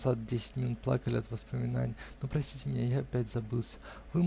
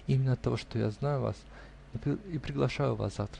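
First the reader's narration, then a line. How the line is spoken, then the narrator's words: Laughing. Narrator (Russian): сказала смеясь девушка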